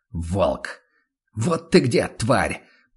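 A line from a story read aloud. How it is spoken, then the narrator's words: Relieved hiss. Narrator (Russian): Прошипел Ван Ален почти с облегчением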